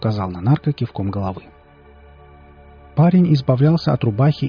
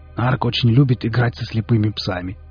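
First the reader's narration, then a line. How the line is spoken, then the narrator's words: Snorting remark. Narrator (Russian): хмыкнул Виллис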